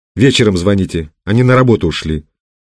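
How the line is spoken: Angry. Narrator (Russian): сердито ответила Лиза

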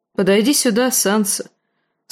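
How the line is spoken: Mildly stern. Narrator (Russian): сказал он не столь уж и строго

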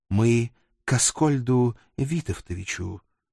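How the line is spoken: Gentle, smiling, young man. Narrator (Russian): мягко улыбнулся мой друг, молоденький секретарш

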